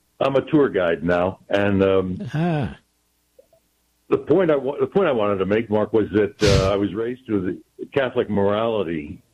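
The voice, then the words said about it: Rich radio-announcer voice. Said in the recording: “that's a radio voice, America. you have a radio voice.”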